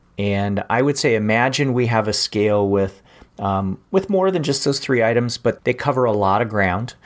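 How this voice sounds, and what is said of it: Hungarian accent. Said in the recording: “the Hungarian accent”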